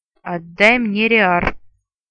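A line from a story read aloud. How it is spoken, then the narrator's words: Rude man's growl. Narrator (Russian): Куда менее любезно прорычал мужик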